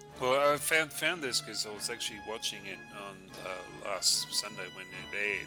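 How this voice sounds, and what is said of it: New Zealand accent. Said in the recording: “with my accent, you probably know where I'm from ... New Zealand.”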